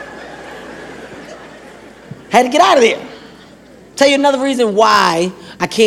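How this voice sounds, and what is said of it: Usual voice. Nothing is said of it.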